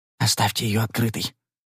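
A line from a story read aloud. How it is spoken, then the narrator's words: Whisper. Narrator (Russian): прошептал я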